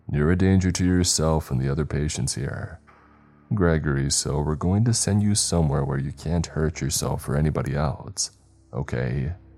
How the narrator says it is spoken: Sighing, he replied

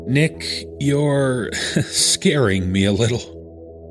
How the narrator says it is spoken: said, laughing nervously to cover up the anxiousness in my voice

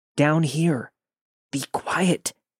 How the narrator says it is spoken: He responded in the most shaken up voice

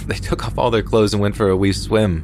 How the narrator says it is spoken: laughed

